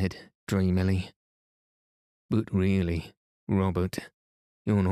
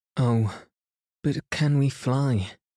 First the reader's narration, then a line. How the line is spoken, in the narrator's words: Jane said, standing anxiously